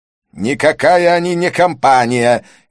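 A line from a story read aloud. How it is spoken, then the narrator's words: Furious shout. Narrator (Russian): яростно выкрикнул Санджай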